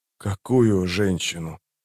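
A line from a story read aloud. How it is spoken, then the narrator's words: Hoarse. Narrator (Russian): прохрипел Паран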